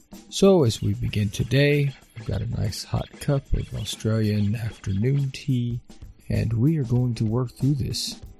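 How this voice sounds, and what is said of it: Slightly rough, hoarse voice. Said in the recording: “my voice has been a little rough this week”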